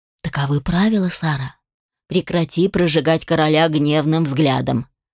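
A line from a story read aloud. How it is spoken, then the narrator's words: Whispered. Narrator (Russian): шепнул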